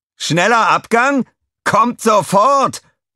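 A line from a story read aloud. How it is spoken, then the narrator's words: Roar. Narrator (German): brüllte er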